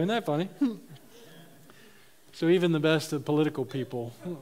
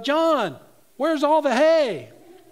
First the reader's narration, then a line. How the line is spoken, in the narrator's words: he called out